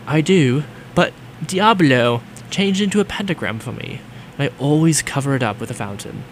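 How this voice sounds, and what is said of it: Put-on British accent. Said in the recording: “I should be doing the British accent.”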